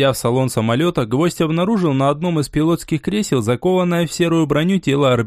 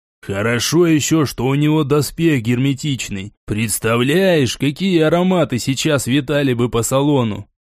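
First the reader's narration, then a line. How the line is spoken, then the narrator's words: Perfunctory grumbling. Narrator (Russian): Гвоздев ворчал больше для проформы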